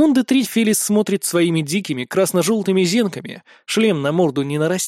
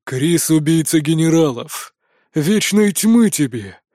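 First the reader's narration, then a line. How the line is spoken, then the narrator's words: Powerful growling greeting. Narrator (Russian): поприветствовал рычащим мощным голосом Кастер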